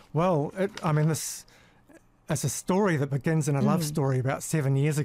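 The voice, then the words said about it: British accent mixed with New Zealand. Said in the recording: “he's got a British accent? ... People in New Zealand think I speak a little differently than New Zealand, the New Zealand accent. But if I was in Britain, they'd think I sound a little unusual. ... Little New Zealand. ... Kind of music mix, yeah. You know, of England and New Zealand. ... A bit of a mix, a mongrel.”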